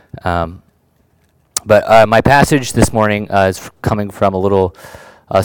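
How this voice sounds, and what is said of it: Voice sounds different, not fully recovered. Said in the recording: “I sound a little different ... I was dealing with a little bit of a throat issue this week ... my voice is taking a little bit to come back ... I um, might have to clear my throat a little bit more than usual”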